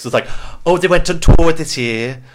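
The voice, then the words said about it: Put-on accent. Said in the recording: “every time she talks I have to put on the accent”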